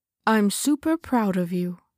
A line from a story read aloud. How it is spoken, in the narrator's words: Daddy said